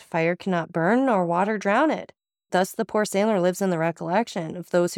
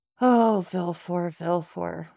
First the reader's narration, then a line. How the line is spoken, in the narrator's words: murmured the Count